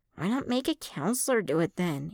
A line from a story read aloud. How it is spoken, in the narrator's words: Ace muttered